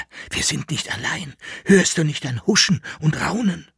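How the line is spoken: Whispered. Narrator (German): flüsterte er

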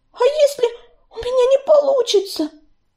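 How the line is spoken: Moaning. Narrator (Russian): простонала Белочка

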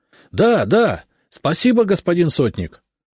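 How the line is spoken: Joyful crowd clamor. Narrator (Russian): загомонили просители, радостно улыбаясь

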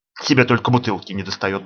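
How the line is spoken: Mutter. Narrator (Russian): бормочет Милка

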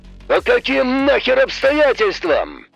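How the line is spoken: Roared. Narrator (Russian): взревел Самсон

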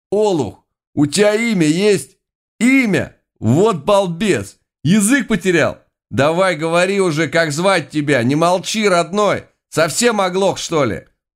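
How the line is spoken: Rough excited shout in ear. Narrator (Russian): В ухо грубым и возбужденным голосом прокричали

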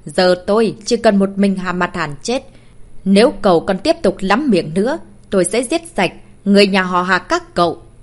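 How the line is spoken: Cold, quiet voice. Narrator (Vietnamese): Ánh mắt của Trúc Vĩnh Sinh trở nên lạnh lùng, ông ta lẳng lặng cất tiếng

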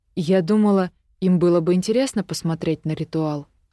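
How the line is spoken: Plain. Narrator (Russian): ответила я

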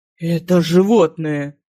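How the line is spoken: Hissing. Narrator (Russian): прошипел Ранера

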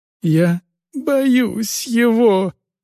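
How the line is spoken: Pleading, breaking into sobs. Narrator (Russian): умоляюще сказал юноша и разрыдался

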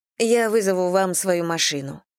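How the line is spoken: Plain. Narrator (Russian): сказала Анна

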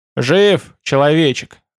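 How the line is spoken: Joyful growl. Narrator (Russian): радостно рыкнул Ут

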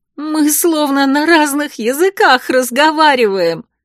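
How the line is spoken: Bitter laughter. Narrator (Russian): Горько рассмеялась я

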